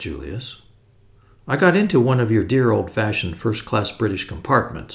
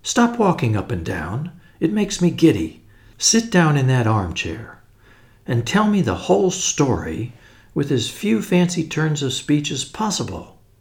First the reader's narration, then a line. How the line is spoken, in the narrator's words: said Tuppence firmly